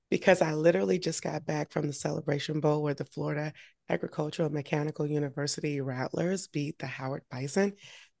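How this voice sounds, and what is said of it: Hoarse voice. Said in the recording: “my voice is a little hoarse ... I'm not at 100%”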